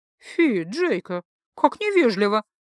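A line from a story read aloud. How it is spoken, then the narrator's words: Delighted laughter. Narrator (Russian): Засмеялась Маранна, которой все происходящее явно доставляло массу удовольствия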